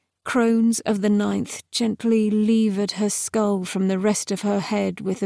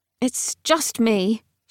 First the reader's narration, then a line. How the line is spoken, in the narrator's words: she'd said impatiently